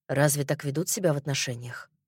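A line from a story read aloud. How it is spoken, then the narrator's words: Mumbling. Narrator (Russian): пробормотал он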